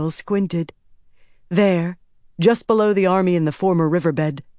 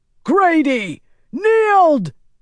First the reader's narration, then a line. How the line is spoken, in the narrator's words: Perrin bellowed